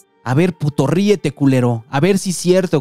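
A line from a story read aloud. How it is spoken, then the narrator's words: Shouting while beating someone. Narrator (Spanish): gritaba mientras lo seguía golpeando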